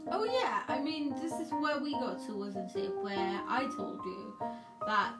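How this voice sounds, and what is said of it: Hybrid Indian-British accent. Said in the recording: “my accent sounds really weird... I don't sound completely British. Anybody that's British can tell that I'm not British... anybody Indian finds my accent weird nonetheless... You're a hybrid”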